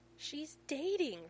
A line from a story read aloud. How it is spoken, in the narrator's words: Rodney yelps